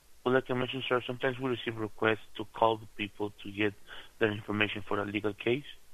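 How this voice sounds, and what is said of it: Non-American accented English. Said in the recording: “You have a fucking accent. You can't even fucking sound like a fucking true American or Mexican.”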